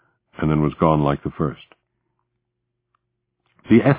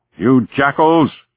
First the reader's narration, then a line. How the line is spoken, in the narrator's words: shouted